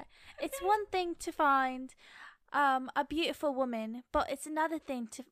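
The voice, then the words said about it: Put-on British English accent. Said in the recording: “I do British accent? ... that was so bad ... my English woman. Accent isn't that bad”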